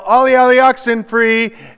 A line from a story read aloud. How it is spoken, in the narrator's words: the person who is it would yell